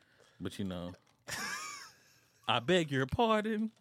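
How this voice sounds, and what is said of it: Imitates another person's voice. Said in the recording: “That was my best impression, Dr. Umar.”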